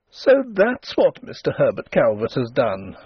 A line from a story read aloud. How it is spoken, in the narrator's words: she exclaimed, amid the embers of her mirth